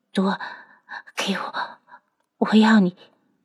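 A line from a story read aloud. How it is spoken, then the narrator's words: Woman's low moan. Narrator (Chinese): 女子的哭声已经变成了低吟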